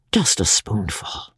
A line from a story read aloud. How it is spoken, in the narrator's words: he coaxed softly